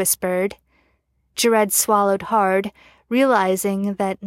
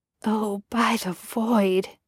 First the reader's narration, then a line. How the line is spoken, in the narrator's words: he muttered